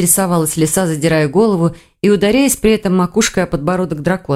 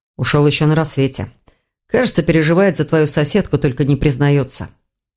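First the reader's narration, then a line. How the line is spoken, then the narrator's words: Grumbling. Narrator (Russian): проворчал Броган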